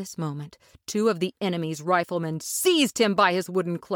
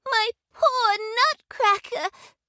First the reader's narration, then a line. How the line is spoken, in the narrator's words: she sobbed